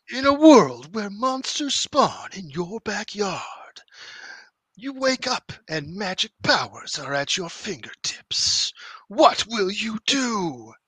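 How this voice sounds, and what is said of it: Dramatic movie trailer narrator voice. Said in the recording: “you have to practice that in the movie trailer voice ... And say, in a world.”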